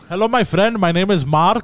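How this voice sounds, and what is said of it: Put-on Indian accent. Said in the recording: “Indians think that we can't hear the accent”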